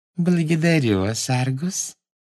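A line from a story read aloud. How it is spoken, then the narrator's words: Sweet little voice. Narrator (Russian): сладким голоском сказала она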